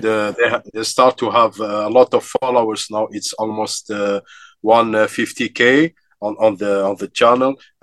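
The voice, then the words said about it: Slight African accent. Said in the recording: “I have a slight African accent”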